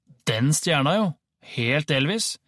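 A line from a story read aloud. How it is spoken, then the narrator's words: Loud yawning. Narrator (Norwegian): Mikkel gjesper høyt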